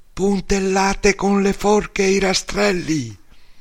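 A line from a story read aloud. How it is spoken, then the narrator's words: Shouting together. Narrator (Italian): A 100 metri Bepi e Angelo gridarono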